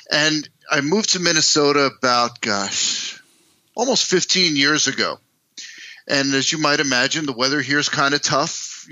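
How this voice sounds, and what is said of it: East Coast New York accent. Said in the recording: “you can probably tell from my accent ... I'm not from here originally. Uh, I grew up in East Coast, New York City, New Jersey.”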